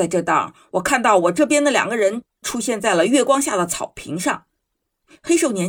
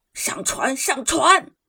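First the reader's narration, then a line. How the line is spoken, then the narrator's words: Shouting in German. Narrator (Chinese): 一个声音用德语大叫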